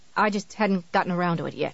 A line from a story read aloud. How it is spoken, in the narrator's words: Annie said sullenly